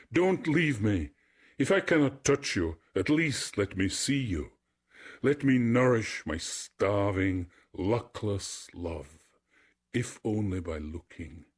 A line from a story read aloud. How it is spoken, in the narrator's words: He cried after it